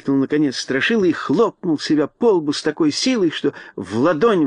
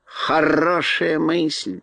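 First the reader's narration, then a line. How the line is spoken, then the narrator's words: Mocking drawl. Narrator (Russian): насмешливо протянула Кагикар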